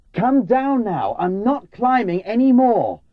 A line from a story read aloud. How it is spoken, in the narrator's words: I really shouted at her